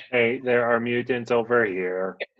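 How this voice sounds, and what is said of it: Distant robotic character voice. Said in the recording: “I'm going to do a voice like a robot, kind of far away”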